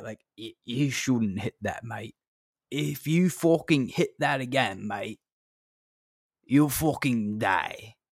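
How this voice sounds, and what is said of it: Put-on British accent. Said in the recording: “I have this weird British accent that comes in my head when I get over high.”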